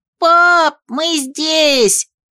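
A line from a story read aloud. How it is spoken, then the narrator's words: Shout. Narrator (Russian): крикнул Алиард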